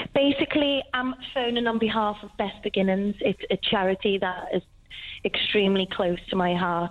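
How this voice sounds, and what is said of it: Weird-sounding voice from tonsillitis. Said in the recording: “excuse my voice. I've got really bad tonsillitis, so I sound a bit weird.”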